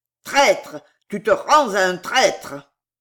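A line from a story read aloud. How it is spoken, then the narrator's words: Furious growled curse. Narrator (French): Le colonel gronda une furieuse imprécation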